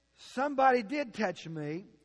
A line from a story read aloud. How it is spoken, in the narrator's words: said Jesus